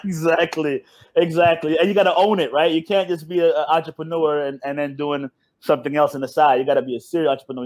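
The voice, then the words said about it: American accent. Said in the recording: “clearly from your accent, it's very American”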